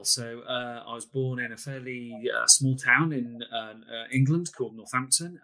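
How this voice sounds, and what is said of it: English accent. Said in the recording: “he's got an accent, so he is across the pond”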